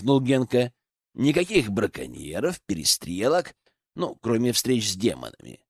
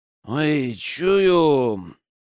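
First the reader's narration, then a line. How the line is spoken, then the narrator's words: Drunken voice. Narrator (Russian): пьяным голосом добавил Богдан, который уже так нехило накидался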